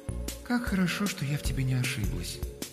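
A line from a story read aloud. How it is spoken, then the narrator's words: Cooing. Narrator (Russian): проворковала Алёнушка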